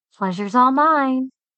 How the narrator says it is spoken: I said through gritted teeth

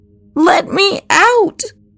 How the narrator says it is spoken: screamed

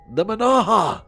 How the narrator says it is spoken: in a panicked voice

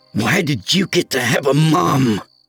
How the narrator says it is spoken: I growled

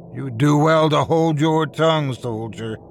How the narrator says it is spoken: he snarled

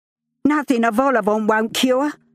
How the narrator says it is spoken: cackled

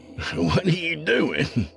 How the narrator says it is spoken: Colt laughed

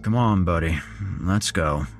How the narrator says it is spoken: his father breathed in a deep, sleepy voice

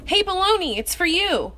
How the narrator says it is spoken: Maria yelled from her bedroom

